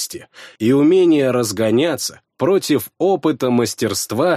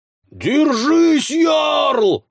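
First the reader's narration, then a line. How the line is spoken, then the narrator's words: Yelled from behind. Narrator (Russian): завопил кто-то за моей спиной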